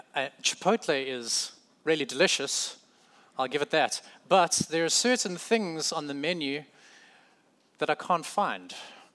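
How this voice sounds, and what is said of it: South African accent. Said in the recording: “I'm still South African. I still have a crazy accent, well, some would say.”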